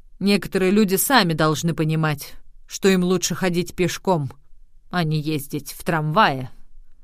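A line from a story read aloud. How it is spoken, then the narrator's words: Grumbling reply. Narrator (Russian): Вагоновожатый проворчал в ответ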